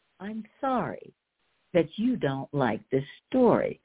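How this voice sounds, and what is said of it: Overly sweet, saccharine tone. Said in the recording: “I very sweetly ... this tone of voice that I'm using”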